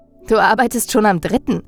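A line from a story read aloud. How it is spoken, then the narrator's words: Laughing. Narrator (German): lachte ich ihn an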